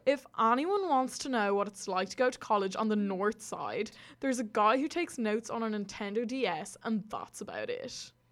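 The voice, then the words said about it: Mock Southside accent. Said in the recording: “I'm going to read it in a Southside accent.”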